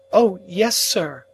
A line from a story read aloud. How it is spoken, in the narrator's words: exclaimed both women together